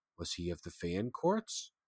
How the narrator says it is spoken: prompted gently

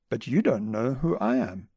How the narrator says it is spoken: said gently and calmly

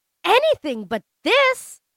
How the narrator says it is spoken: exclaim

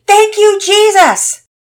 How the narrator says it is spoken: he shouted loudly

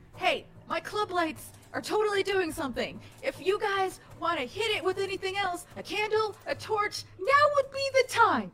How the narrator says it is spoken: yell out

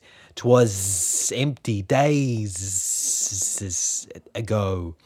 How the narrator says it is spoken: hissed the snake

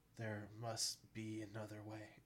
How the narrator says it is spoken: said softly

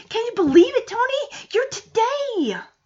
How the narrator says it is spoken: Excitedly, Punky jumps up and down, saying

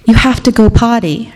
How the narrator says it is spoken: her mother says

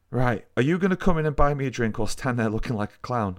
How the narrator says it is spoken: I laughed

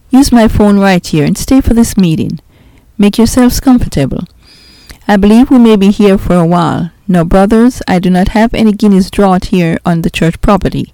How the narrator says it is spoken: he said with a chuckle

